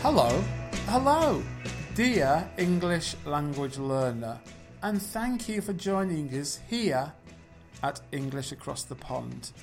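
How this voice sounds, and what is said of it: British English accent. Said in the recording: “One of the teachers is from Britain, from the United Kingdom, from England. And if you're good at accents, you will have noticed that that's me.”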